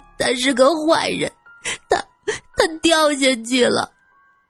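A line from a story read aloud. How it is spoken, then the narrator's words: Crying out. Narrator (Chinese): 小林哭喊着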